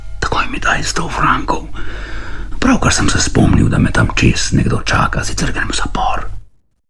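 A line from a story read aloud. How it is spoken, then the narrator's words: Whispering. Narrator (Slovenian): je rekel Vojtek šepetajočim glasom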